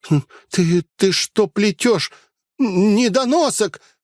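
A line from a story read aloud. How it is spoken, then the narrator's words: Sharp cry. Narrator (Russian): вскрикнула она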